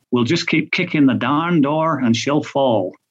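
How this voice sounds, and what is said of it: Put-on American country accent. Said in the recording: “I don't know why I've given him a country accent there”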